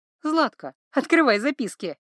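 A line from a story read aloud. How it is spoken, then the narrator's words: Giggling. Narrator (Russian): хихикнула Ива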